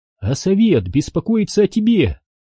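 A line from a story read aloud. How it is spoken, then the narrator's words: Cheerful. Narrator (Russian): весело сказала Ади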